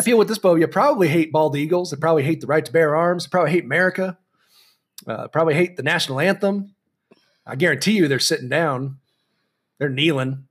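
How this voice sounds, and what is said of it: Country twang accent. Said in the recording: “you say all of that with like a country twang accent”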